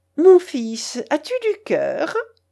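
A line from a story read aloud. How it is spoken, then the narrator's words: Exclaiming, laughing harder. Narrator (French): s'écria-t-elle en riant de plus belle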